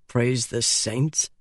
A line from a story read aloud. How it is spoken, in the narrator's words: muttered Alucard